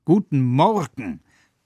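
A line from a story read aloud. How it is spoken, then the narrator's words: Loud bellowing. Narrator (German): brüllt sie, dass der letzte Traum seine Sachen packt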